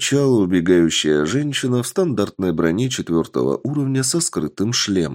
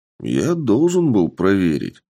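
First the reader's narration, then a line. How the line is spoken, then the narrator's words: Calm man's answer. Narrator (Russian): спокойно ответил мужчина в такой же броне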